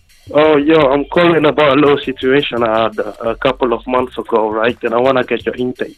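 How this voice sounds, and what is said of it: Foreign-accented English. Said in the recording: “I hear an accent.”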